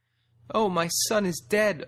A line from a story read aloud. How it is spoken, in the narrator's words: a doe wailed